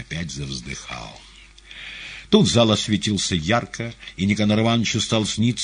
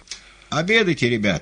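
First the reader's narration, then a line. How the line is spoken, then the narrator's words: Shouting. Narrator (Russian): кричали повара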